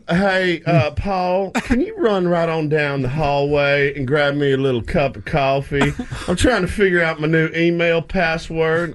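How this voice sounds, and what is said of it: Fake put-on accent. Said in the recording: “Brian Kelly's fake accent”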